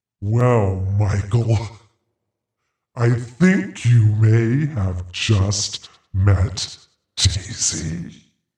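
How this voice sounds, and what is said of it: Creepy voice. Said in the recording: “creeped out now. That was really creepy. ... 100% creepy. ... creepy voice”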